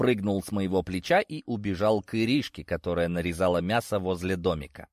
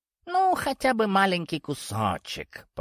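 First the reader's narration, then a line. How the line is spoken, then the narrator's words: Purring creature voice. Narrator (Russian): промурлыкал сгусток меховой тьмы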